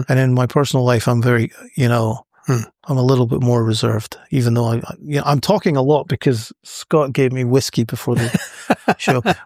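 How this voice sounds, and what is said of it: Scottish accent. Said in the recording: “my Scottish accent might be apparent”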